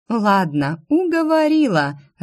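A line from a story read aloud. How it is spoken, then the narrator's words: Laughing. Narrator (Russian): рассмеялась Инесса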